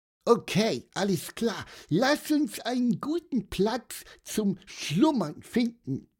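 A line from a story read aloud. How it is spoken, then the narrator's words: Squeaky piping. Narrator (German): piepste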